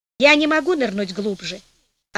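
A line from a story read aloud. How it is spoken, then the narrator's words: Plain. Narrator (Russian): ответил Кола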